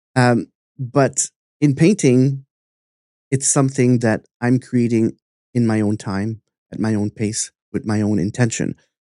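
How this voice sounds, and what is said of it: Accented English speech. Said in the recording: “I have an accent sometimes”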